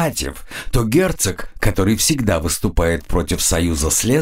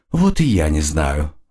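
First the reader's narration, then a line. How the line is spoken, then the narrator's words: Sighing. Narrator (Russian): вздохнула фрейлина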